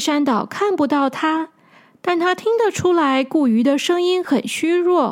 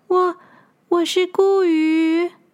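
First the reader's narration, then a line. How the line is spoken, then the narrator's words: Weak feeble voice. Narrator (Chinese): 那个声音虚弱的说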